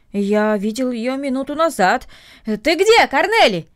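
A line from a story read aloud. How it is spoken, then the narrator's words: Shouting toward house. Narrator (Russian): крикнул он в сторону дома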